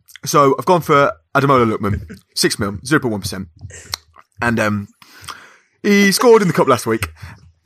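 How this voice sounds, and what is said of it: Impression of another person's voice. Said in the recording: “your Harry impression”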